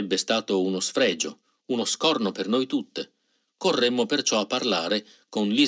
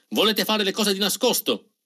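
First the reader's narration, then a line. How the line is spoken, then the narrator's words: Started shouting. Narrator (Italian): si mise a gridare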